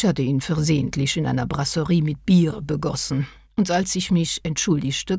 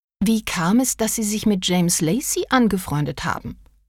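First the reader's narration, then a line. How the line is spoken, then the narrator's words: Plain question. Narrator (German): fragte Agatha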